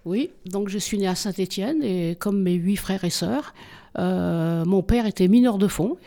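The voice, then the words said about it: Saint-Étienne French accent. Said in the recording (French): “Ce n'est pas mon accent qui va me contredire.”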